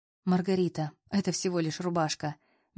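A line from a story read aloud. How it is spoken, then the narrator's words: Soft. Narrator (Russian): мягко произнес Аполлон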